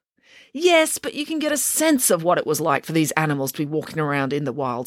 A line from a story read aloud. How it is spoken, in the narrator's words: snapped Mr